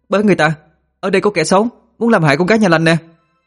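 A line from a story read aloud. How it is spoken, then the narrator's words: Alarmed shout. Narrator (Vietnamese): hét lên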